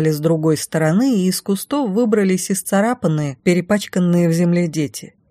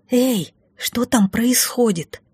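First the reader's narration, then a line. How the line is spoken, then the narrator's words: Quiet whisper from below. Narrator (Russian): раздался подо мной негромкий шепот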